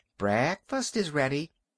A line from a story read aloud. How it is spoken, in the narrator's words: she called brightly